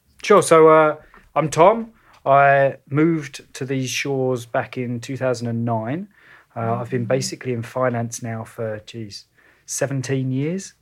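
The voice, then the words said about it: Slight English accent. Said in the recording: “it sounds like you have an accent ... I do, just a little one. Commonly mistaken for Australia, but no, I am actually English.”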